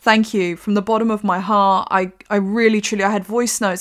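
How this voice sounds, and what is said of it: Emotional, choked-up voice. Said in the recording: “you can hear I'm getting emotional”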